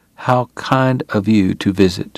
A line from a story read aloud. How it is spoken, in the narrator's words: Doc said softly